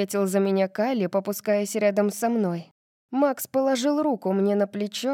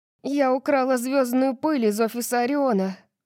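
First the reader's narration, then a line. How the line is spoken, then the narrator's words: Breathless. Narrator (Russian): Выдохнула я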